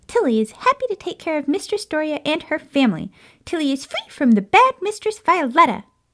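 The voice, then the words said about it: Hyper cartoonish creature voice. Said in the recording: “she sounds like a hyper version of Gus from Cinderella”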